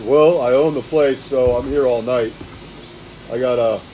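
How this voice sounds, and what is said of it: Deep character voice. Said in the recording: “She's got a deep voice. ... Yes, she does.”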